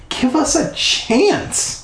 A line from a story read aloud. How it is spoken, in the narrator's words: I cried